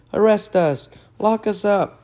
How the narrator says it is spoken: pleaded Butch

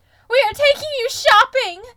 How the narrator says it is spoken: Louis screamed with excitement

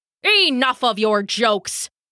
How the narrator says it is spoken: Thor snarled, angry spit flecking from his angry lips

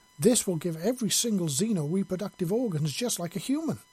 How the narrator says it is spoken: Abigail exclaimed excitedly

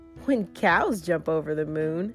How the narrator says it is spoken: Blue laughed

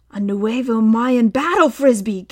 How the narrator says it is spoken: gasped Tom

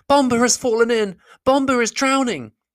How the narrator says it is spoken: he cried

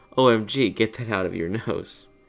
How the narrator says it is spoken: laughing really hard and saying

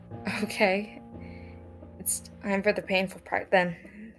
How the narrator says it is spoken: Stephanie sighed

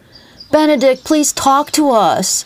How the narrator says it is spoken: the girls pleaded with him

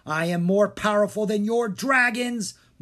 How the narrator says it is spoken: Maldred thundered

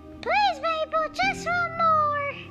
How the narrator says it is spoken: they cried, hopping over one another in excitement

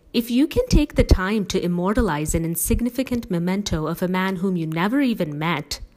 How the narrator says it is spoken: the girls gasped

